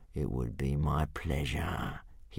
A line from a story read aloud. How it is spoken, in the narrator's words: he hissed